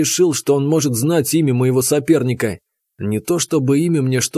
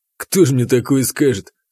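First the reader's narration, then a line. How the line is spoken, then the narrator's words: Snort. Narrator (Russian): хмыкнул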